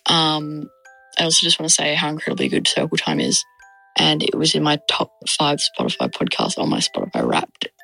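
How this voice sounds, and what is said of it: Australian accent. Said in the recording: “I'm ... from Perth, Australia, if you could tell by my accent”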